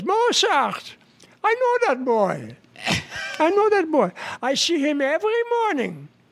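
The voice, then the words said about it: Put-on Jewish accent. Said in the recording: “any other jokes with a Jewish accent? ... With a Jewish accent.”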